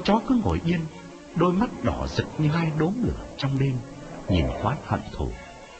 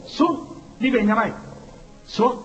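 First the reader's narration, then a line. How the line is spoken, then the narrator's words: Shouting. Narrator (Vietnamese): quán quát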